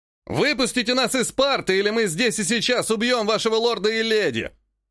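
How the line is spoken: Assassin screaming threat. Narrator (Russian): завопил один из убийц

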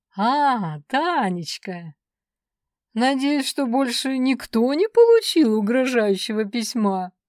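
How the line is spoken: Slightly mocking. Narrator (Russian): Голос Сан Саныча звучал немного насмешливо

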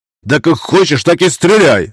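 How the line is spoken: Snapping retort. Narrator (Russian): огрызнулся Раевский

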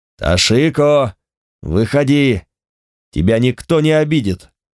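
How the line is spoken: Hoarse rasp. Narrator (Russian): Старший дознаватель хрипел

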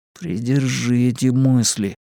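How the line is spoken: Grim, to himself. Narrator (Russian): мрачно сказал он себе

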